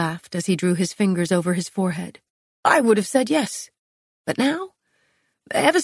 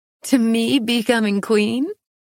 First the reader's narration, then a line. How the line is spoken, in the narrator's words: I laughed